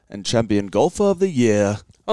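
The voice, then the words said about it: Put-on British accent. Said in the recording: “your little British voice there you do... that was pretty perfection”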